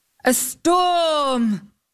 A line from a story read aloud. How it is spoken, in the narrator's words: exclaimed the knight